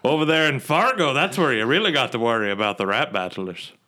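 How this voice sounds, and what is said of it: Slipping into an Irish accent. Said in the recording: “You kind of slipped into Irish accent there.”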